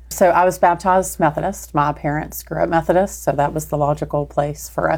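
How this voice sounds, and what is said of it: Slight Texas accent. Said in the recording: “some of the accent that they're going to hear ... you're going to hear a little Texas.”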